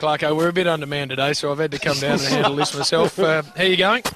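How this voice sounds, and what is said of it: Usual voice. Nothing is said of it.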